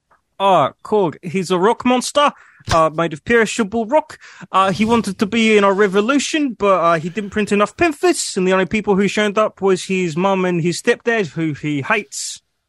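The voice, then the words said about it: Kiwi-accented character voice impression. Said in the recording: “That's pretty good. ... a pretty good impression. ... He might be 20% more Kiwi than Korg was”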